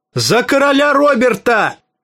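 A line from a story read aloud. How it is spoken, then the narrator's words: Shouting. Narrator (Russian): закричал он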